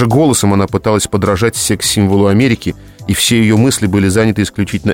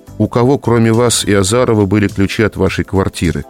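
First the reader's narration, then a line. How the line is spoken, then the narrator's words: Tired question. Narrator (Russian): устало спрашивал Миша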